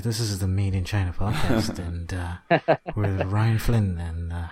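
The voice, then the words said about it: Smooth public-radio announcer voice. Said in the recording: “I'm going to get my NPR voice”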